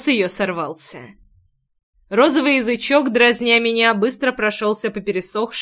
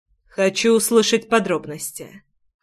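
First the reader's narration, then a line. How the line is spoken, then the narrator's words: Impassive. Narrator (Russian): бесстрастным тоном пояснил я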